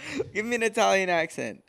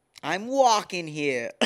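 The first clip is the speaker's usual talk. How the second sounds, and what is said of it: Attempted Italian accent, sounds Boston. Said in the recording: “Let me hear your Italian accent... That's not even Italian... No, it's like Boston.”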